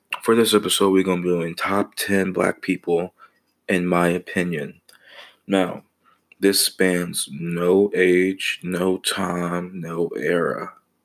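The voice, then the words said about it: Sick-sounding voice. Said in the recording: “I'm a little bit under the weather, so my voice is going to be real smooth”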